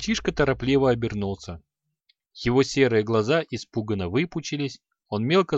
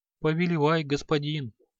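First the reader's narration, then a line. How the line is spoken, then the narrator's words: Timid mumble. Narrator (Russian): робко пробормотал он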